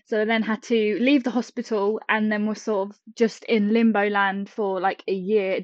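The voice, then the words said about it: British English accent. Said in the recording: “I live in the UK, as you said about my accent.”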